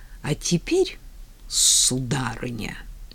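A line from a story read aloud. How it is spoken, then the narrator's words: Hiss. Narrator (Russian): прошипела Роза Константиновна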